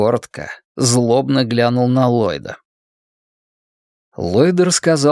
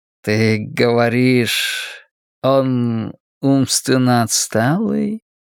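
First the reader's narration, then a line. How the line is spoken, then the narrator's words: Cooing. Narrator (Russian): проворковал Флэг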